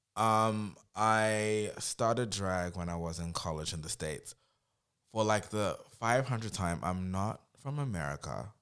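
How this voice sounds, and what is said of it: Mixed accent that sounds American. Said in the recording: “Everybody thinks I'm American because my accent's like mixed around. But I've lived in 6 countries, so the accent is mixed.”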